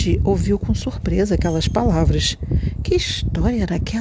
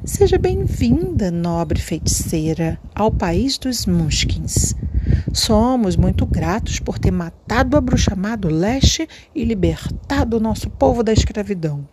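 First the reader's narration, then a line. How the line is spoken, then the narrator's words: Sweet old woman's voice. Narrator (Portuguese): disse com voz doce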